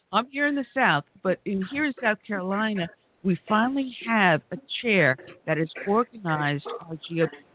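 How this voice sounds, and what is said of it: New York Brooklyn accent. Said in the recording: “former New Yorker, because you can tell from my dialect, New Yorker ... you can take the top out of Brooklyn, but you can't take Brooklyn out of the top”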